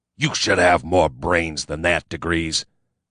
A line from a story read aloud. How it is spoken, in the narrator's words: he snarled